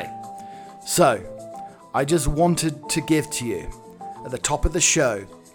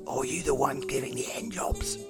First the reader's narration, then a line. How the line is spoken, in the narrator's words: he asks in a quiet voice